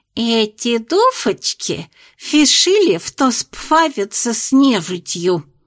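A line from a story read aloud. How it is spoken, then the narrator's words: Lisping, familiar voice. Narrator (Russian): прозвучал другой шепелявый и до боли знакомый голос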